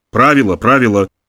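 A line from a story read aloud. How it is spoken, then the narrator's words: Mumbled with feigned annoyance. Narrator (Russian): бормотал, изображая досаду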